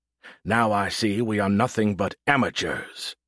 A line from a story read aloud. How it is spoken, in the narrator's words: he spat with disgust